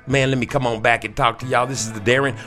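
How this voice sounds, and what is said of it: Put-on country hillbilly accent. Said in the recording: “my country hillbilly voice”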